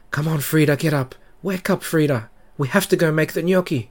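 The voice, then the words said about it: Hurried voice. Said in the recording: “in a hurried voice.”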